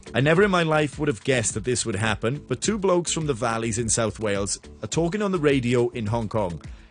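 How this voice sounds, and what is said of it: Welsh accent. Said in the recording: “my Welsh accent is about to come through stronger than ever before”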